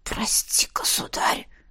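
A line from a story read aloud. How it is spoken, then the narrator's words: Whisper. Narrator (Russian): прошептал он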